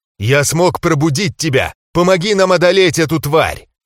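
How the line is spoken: Abrupt dragon shout. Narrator (Russian): отрывисто выкрикнула голова дракона

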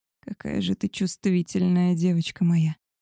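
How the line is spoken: Purring wolf. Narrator (Russian): Промурлыкал волк

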